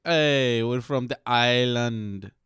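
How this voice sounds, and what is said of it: Jamaican accent troll voice. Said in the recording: “they have a Jamaican accent.”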